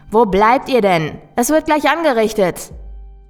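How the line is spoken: Call. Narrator (German): rief ich

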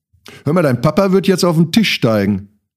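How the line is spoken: Cousin calls out. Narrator (German): rief meine Cousine mir zu

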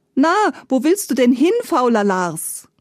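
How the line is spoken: Laughing call. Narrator (German): lachte sie und rief

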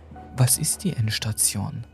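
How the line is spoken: Trembling question. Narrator (German): fragte sie mit zitternder Stimme

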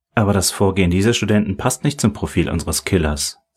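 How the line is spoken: Plain. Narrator (German): sagte Helen

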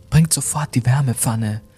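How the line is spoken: Trembling cry. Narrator (German): rief Lilly mit zitternder Stimme

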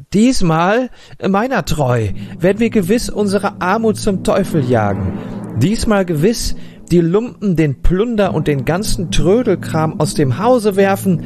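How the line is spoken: Exclaiming. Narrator (German): rief alsbald aus

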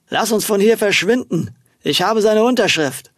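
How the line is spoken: Slightly slurred speech. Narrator (German): Mit leicht lallender Stimme sprach

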